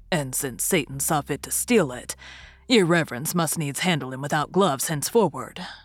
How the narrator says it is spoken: remarked the old sexton, grimly smiling

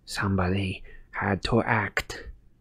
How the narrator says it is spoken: breathed Umbridge

